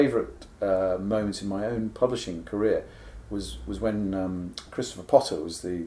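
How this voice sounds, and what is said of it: Usual voice. Nothing is said of it.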